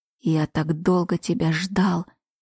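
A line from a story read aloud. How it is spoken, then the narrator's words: Sudden whisper. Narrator (Russian): неожиданно прошептал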